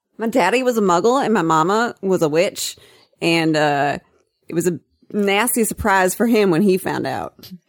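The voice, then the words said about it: Put-on Southern US accent. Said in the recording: “I wanted to try to do the Seamus thing in a southern accent, but it's way too hard.”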